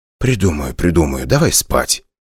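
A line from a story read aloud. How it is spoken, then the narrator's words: Whispered. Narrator (Russian): прошептал я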